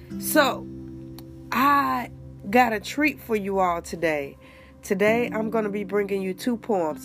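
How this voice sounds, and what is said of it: Congested, stuffy voice. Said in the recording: “excuse my voice. If I sound all congested, it's because I am. I'm dealing with this head thing.”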